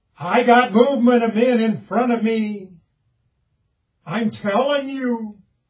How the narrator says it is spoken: says more loudly, more urgently

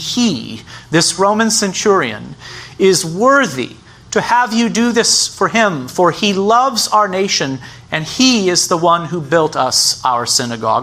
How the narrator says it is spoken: they, the Jews, pleaded with him earnestly, saying

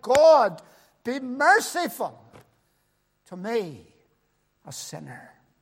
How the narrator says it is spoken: bowed his head and said, cried

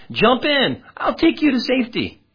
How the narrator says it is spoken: a neighbor called out

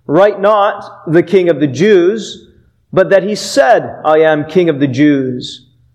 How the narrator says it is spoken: Pilate answered

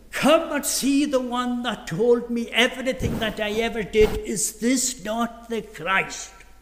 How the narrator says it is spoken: shouting

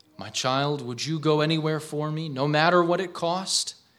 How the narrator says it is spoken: he asked

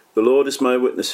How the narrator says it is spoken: he said

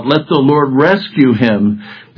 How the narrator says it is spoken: one of them cried out, several of them cried out

